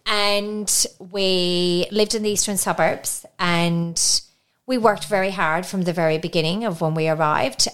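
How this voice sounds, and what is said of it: Slight Irish accent. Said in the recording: “you can hear I've got a little bit of an accent, so I'm Irish.”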